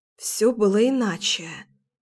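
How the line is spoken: Strangled whisper. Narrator (Russian): сдавленно прошептала я

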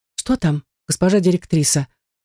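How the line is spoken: Frightened, curious question. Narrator (Russian): спрашивает, испуганно распахнув глаза, любопытная дежурная

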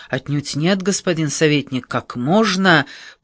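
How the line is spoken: Muttering into his mustache. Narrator (Russian): Пробормотал он в усы

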